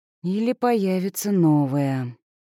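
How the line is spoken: Sighing. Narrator (Russian): вздохнула Надя

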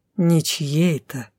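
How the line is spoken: Insinuating correction. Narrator (Russian): поправил вкрадчиво

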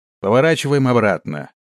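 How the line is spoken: Shouted. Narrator (Russian): прокричал он

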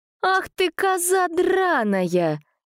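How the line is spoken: Angry shout. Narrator (Russian): закричала помощница

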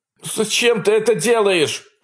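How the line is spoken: Shouting. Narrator (Russian): кричал парень

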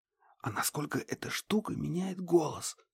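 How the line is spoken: Whispered question. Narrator (Russian): Также шепотом спросила Банши

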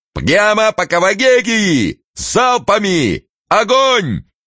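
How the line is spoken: Shouted command. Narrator (Russian): Най закричал

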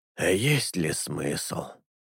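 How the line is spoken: Sighing. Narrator (Russian): Алета вздохнул

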